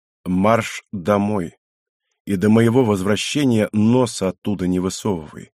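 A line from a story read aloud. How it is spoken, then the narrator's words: Quiet, weighty, firm. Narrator (Russian): негромко, но веско припечатал глава клана Каяма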